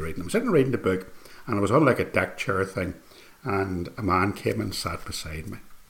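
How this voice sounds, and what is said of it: Northern Irish accent. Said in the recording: “he heard my accent, heard where I was from ... I was from Northern Ireland”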